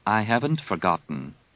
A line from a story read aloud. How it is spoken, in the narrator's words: Leia said evenly